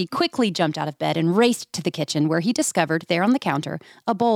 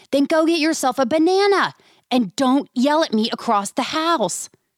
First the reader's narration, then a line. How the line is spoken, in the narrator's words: Dad yelled back across the house